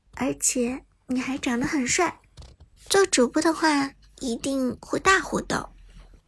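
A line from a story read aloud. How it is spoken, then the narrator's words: Shy quiet voice. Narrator (Chinese): 菲菲的脸颊有些红润，小声的说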